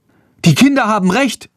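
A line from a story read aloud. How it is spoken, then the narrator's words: Young woman calling. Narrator (German): ruft eine junge Frau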